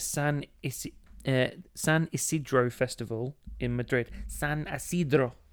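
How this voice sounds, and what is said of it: Bad put-on Spanish accent. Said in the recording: “you can't just put on a shit accent and wobble your hand about.”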